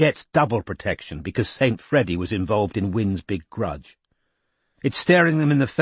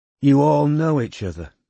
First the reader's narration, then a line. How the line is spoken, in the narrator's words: said Robin wearily